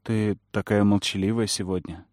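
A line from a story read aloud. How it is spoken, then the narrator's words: Quiet remark. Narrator (Russian): тихо заметил Бран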